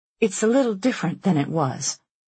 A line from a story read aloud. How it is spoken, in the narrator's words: the mother said